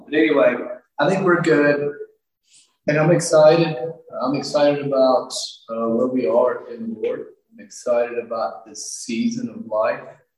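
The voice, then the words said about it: Strained, nearly lost voice. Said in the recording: “my voice is going to be fine ... losing my voice. It's gone.”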